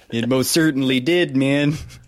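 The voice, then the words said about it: Imitates another person's voice. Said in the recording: “I'm a bad impression of Tommy Chong, and I'm having a bad trip.”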